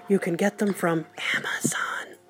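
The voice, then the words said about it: Spoken very quietly. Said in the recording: “I have to say this really quietly”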